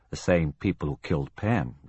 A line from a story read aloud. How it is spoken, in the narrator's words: the surgeon replied quietly